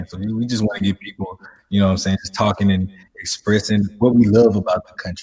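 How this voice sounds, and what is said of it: Southern US accent. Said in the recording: “thank you for gracing us with your accent today. Can you tell us about growing up in the South?”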